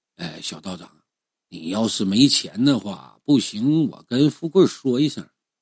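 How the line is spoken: Old man, low voice. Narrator (Chinese): 杨老头……压低声音说

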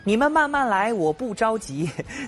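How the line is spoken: Calm, joking call-out. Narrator (Chinese): 这个镇定的小猪……一边搞笑喊话工作人员

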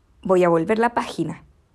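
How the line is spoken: Rough voice. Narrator (Spanish): me dijo con voz áspera

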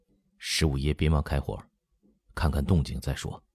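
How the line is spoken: Low voice. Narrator (Chinese): 王尔烈也低声说

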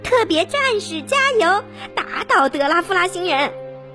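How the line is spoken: Group shouting. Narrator (Chinese): 大家还是喊着

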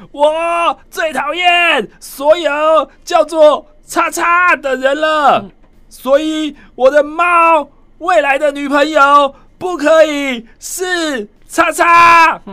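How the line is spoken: Loud declaration. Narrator (Chinese): 大声说

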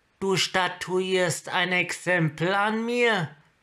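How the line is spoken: Called out. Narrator (German): rief Kiora und hoffte, dass die Göttin der Meere sie durch die Wellen hindurch hören könnte, wenn schon nicht über sie hinweg

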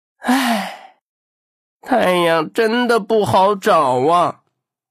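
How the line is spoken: Sighing. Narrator (Chinese): 汉克不禁叹了口气

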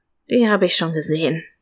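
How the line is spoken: Grumpy mutter. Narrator (German): murmelte ich mürrisch

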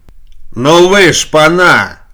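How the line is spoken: Shout. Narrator (Russian): закричал, входя, дежурный Овсюков

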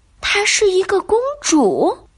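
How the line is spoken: Melancholy, lowered voice. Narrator (Chinese): 他忧郁的压低声音告诉我

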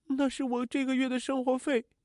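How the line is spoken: Crying. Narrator (Chinese): 阿玉哭着说

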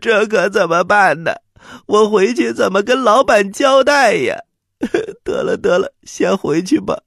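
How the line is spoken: Fake crying. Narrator (Chinese): 秦古离假装哭了

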